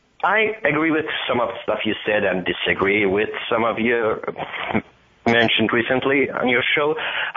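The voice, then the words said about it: Iranian-accented English. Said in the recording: “I am Iranian-American, as probably you can hear by my accent.”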